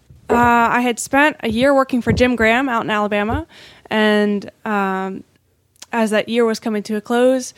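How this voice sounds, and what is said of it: American Southern accent. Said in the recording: “that is a Southern accent.”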